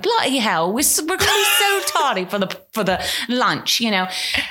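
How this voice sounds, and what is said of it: Put-on English accent. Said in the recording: “I only spoke with an English accent.”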